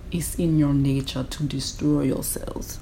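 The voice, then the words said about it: Arnold Schwarzenegger impression. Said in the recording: “my Arnold Schwarzenegger accent.”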